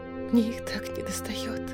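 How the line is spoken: Shuddering whisper. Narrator (Russian): прошептала Манона, содрогнувшись всем телом

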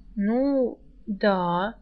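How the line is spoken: Uncertain. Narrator (Russian): неуверенно подтвердила Рыска

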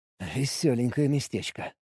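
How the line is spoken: Muttering. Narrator (Russian): пробормотал я

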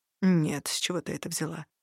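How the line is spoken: Slightly hoarse reply. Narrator (Russian): немного хриплым голосом откликнулся он

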